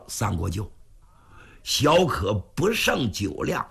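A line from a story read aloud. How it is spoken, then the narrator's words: With a smile. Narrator (Chinese): 云瑞一笑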